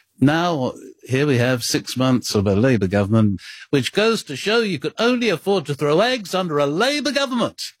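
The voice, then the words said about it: Impression of Harold Wilson. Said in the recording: “I can do it with the Harold Wilson impersonation”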